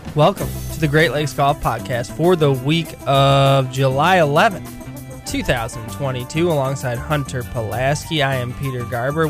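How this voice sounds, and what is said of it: Sick, slightly altered voice. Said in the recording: “This is a sick edition. I'm coming to you at about 60% ... if my voice sounds a little different ... I don't feel well at all right now”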